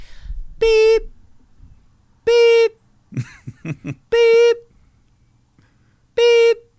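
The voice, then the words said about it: Vocal imitation of reversing truck beeps. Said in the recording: “That's my impression of Mike. I'm backing up the Brinks truck.”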